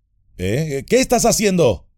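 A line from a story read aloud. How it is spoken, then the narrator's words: Uneasy shout. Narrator (Spanish): gritó Sam, inquieto una vez más como antes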